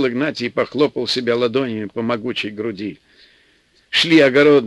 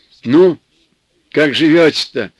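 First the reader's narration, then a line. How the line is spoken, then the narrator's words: Deep bass voice. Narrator (Russian): басил Игнатий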